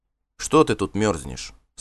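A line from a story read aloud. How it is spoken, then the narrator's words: Plain. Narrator (Russian): спросил он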